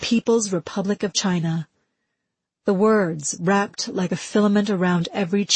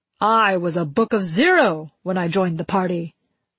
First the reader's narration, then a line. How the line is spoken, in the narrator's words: Ba Loot shouted